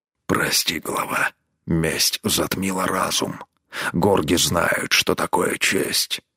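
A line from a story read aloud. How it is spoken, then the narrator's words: Hoarse croak. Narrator (Russian): прохрипел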